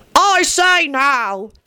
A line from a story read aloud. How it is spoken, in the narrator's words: the constable grumbled to the loathly worm